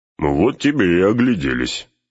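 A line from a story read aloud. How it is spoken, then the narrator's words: Grumbling. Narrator (Russian): проворчал Гимли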